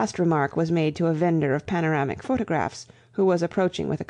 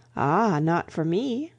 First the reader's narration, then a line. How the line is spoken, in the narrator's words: said the chaplain blandly